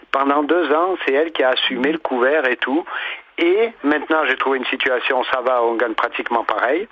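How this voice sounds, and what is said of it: Grenoble regional French accent. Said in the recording (French): “Très bel accent grenoblois qui est le vôtre”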